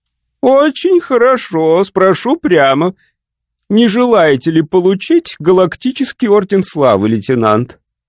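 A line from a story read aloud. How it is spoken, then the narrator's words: Laughing. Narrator (Russian): Дон Мазерс рассмеялся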